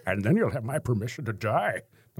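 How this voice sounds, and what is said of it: Bane impression (Tom Hardy). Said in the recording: “Well, that's a horrible Bane. ... That wasn't too bad. ... Described Bane as Darth, as Sean Connery playing Darth Vader. ... You have to cover your mouth.”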